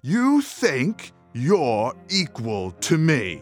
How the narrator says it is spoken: yelled

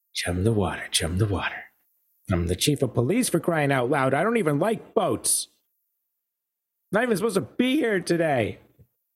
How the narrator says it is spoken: Bobby, with a cigarette hanging from the corner of her mouth, mutters

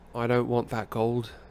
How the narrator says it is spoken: said Harry in an expressionless voice

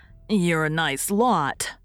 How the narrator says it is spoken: sneered Dan

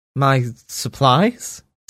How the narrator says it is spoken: Sammy asked nervously

